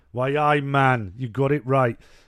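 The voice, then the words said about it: Put-on Geordie accent. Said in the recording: “Newcastle, man... Sunderland, man. Which is exactly the same accent I'd do for a Geordie and all”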